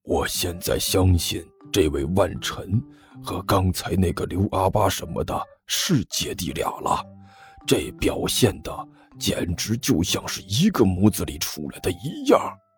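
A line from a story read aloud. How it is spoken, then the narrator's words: Low, hushed aside. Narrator (Chinese): 吴老师干咳了两声，压低声音对一边的甘球说道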